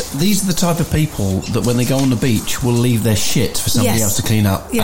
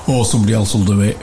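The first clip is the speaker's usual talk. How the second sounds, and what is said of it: Put-on northern English accent. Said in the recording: “I don't know why I've done that in a northern accent.”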